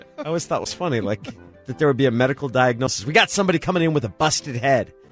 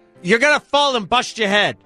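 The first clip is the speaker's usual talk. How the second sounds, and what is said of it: Old New York woman accent. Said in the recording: “your New York woman accent ... an old bat from New York”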